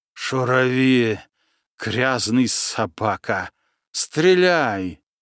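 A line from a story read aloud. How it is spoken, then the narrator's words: Exhausted, hateful, through teeth. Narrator (Russian): измученно процедил бородатый, глядя на него с лютой ненавистью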